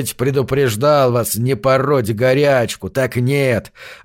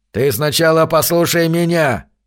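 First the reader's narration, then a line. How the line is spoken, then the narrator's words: Old man growling. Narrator (Russian): прорычал старый Джонас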